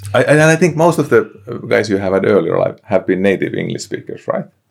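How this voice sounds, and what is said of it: Finnish-accented English. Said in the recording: “Finnish accent is probably quite unique ... some real Finnish accent ... I've got to bottle this accent”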